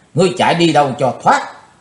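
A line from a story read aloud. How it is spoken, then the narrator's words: Shouted loudly. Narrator (Vietnamese): hét to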